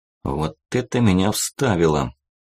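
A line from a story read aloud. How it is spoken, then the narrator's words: Hoarse mumble. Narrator (Russian): пробормотал я сорванным голосом чуть погодя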